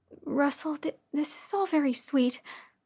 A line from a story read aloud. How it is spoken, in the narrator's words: I said nervously